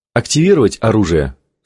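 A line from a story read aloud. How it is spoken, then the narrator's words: Plain. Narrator (Russian): спросил Томми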